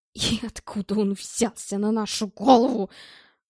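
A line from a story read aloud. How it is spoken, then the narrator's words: Grumbling. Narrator (Russian): проворчал Белл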